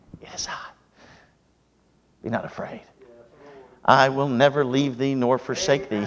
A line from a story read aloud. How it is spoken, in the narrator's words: the Savior whispers